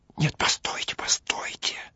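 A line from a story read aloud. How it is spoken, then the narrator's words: Whispered in ear. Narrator (Russian): Он на ухо шепотом продолжал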